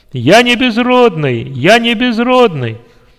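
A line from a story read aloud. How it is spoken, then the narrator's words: Joyful loud shout. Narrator (Russian): радостно и громко закричал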